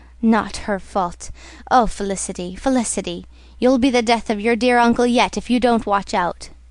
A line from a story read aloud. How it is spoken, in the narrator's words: murmured